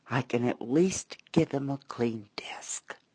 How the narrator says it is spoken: murmuring

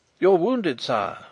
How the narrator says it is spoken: he exclaimed

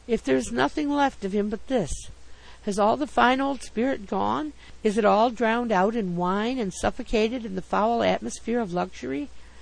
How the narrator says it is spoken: I murmured

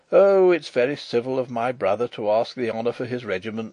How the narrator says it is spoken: said the King

